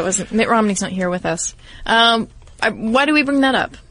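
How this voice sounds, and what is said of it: Usual voice. Nothing is said of it.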